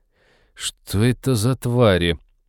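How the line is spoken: Icy cyborg voice. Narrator (Russian): ледяным тоном поинтересовался киборг

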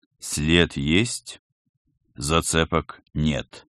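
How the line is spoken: Gloomy announcement. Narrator (Russian): мрачно сообщил всем Пал Палыч

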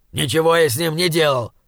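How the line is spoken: Indignant snapping. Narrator (Russian): возмущенно огрызнулся он

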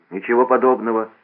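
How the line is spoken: Angry. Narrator (Russian): сердито сказал Эдгар-младший

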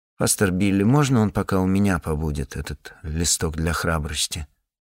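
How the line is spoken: Timid question. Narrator (Russian): робко спросила

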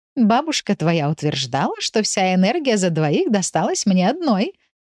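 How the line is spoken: Laughing. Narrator (Russian): рассмеялась Матильда

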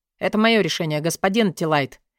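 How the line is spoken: Calm reply. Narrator (Russian): спокойно ответил мой однокурсник

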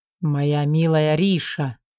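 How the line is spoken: Low voice. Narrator (Russian): произносит низким голосом

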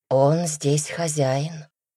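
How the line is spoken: Heavy sigh. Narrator (Russian): тяжело вздохнула Мария

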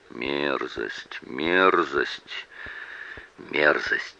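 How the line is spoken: Muttering. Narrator (Russian): сидел и бормотал

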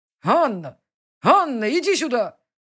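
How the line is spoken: Loud call. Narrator (Russian): Зовет громко

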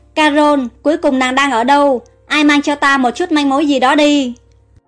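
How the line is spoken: Anxious shout. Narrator (Vietnamese): Hoàng đế Memphisư vô cùng lo lắng hét lên

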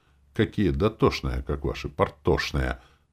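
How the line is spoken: Through gritted teeth. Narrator (Russian): цедил сквозь зубы

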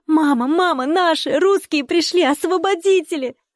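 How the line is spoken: Shouting. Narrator (Russian): закричала Маруся

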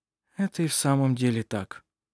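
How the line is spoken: Sleepy mumble. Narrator (Russian): пробормотал Петер, засыпая

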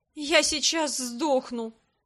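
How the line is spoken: Moan. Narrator (Russian): простонала

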